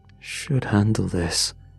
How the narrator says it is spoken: he muttered

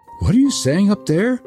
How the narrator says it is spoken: cried Gerda

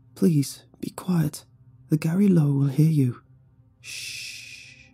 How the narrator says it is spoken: whispered

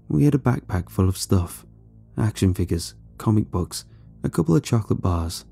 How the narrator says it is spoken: he said quietly

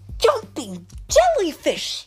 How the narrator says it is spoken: cried Shellington

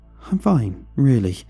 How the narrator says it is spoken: I stammered

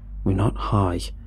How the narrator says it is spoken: I said flatly

